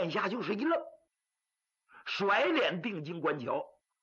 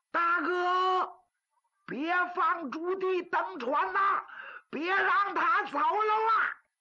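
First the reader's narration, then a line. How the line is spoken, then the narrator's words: Loud shout. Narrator (Chinese): 有人高声喊喝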